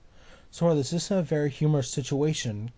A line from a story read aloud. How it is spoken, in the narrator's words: Kairi gasped at him